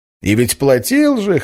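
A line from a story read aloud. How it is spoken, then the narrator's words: Loud laughter. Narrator (Russian): хохотал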